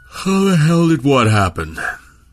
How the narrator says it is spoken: Milne asked, around a yawn born of too little sleep

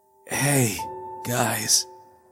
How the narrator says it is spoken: he managed weakly

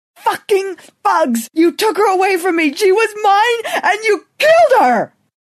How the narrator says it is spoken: Then, finding enough anger and desolation to scream louder

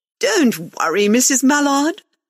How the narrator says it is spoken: Susan Fowler said brightly, struggling to sit up

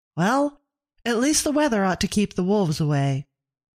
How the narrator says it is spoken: Abigail said brightly

